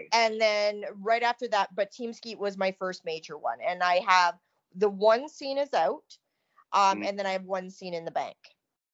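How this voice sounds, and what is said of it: Canadian accent. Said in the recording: “y'all can hear that Canadian accent, right? ... It's terrible, isn't it? ... I love the Canadian accent.”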